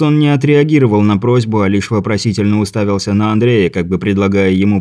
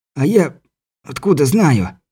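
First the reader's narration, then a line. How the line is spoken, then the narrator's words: Wheezing. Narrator (Russian): просипел Беляев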